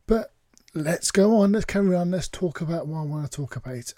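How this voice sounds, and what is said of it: Rough, hoarse voice. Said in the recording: “I've got a bit of a frog in my throat tonight, so if I sound a little bit different... It's a bit of roughness”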